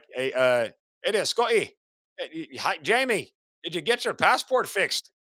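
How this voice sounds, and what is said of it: Put-on Irish accent. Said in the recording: “Why am I doing an Irish accent?”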